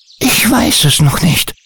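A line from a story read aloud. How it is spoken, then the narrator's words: Awed whisper. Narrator (German): flüsterte Timmy ehrfürchtig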